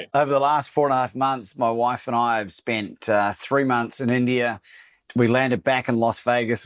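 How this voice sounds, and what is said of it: Australian and New Zealand accent. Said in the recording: “I am indeed half Australian, but I'm half New Zealand”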